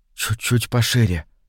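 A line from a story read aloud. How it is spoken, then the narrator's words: Undertone. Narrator (Russian): вполголоса произнес Андрей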